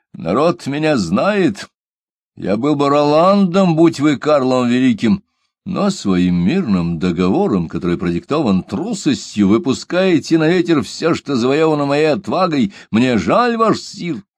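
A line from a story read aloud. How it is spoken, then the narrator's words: Furious shout. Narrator (Russian): выкрикнул Берон в бешенстве за свой недавний страх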